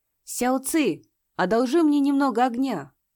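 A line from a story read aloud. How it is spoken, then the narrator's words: Loud. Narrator (Russian): Джуан Нанси громко произнес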